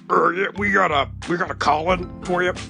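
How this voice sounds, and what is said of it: Strange deep character voice. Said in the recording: “man, with a strange deep voice”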